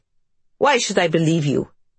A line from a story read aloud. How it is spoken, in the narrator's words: Alexandra snarls